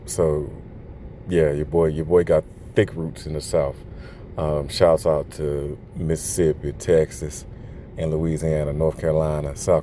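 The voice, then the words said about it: Thick Southern American accent. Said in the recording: “my thick Southern accent comes out... that's just really how I sound”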